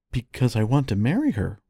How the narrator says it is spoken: replied the prince very earnestly

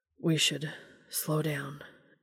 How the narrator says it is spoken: Dean murmured

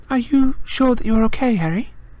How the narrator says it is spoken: said Hermione, anxiously

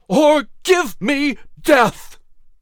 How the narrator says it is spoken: in an electrifying, triumphant cry exclaimed

